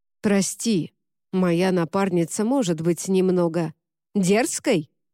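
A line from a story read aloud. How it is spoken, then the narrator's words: Barked. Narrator (Russian): рявкнул Люк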